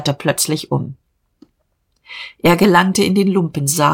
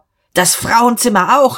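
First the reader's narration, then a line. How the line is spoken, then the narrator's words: Shouted. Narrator (German): schrie Diederich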